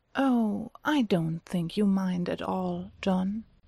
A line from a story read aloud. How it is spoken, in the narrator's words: Mycroft says slowly